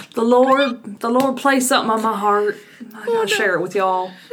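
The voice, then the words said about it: Southern pastor's wife accent. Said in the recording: “You were the pastor's wife leading the y'all. ... It has to have the southern accent.”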